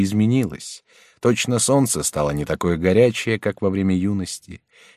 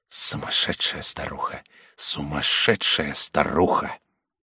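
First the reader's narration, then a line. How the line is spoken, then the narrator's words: Broken, muttering. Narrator (Russian): вся разбитая … бормотала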